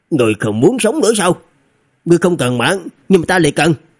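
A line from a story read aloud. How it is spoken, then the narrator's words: Old man shouting. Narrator (Vietnamese): lão nha dịch quát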